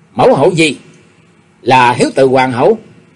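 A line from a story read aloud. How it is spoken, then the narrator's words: Cold. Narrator (Vietnamese): Chu Dưỡng Văn lạnh lùng nói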